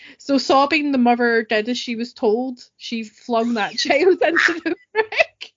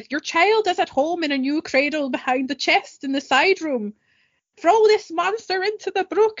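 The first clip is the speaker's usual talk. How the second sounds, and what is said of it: Put-on generic Irish traveller accent. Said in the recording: “I should do a German accent, but since it's a traveller, I'm just doing the generic Irish traveller thing.”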